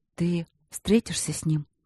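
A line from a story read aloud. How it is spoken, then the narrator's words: Muffled mumble. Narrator (Russian): глухо пробормотала супруга ему в грудь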